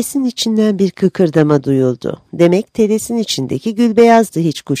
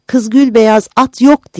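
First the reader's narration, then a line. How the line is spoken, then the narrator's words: Shouted. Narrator (Turkish): diye bağırdı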